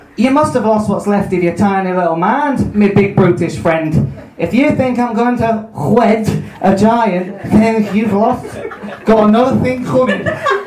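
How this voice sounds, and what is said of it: Attempted Scouse accent. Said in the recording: “Scouse. ... Oh god, the one I can't do. ... Liverpool.”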